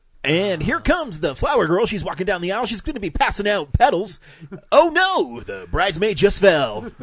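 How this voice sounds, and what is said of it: Announcer-style radio voice. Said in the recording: “I made it more exciting by adding my radio voice.”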